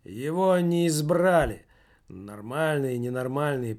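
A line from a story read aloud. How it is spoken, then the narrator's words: Grumbling mutter. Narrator (Russian): пробурчал кто-то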